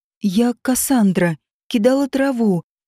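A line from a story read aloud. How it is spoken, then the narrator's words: Girl sighing, babbling. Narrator (Russian): Девушка вздохнула и пролепетала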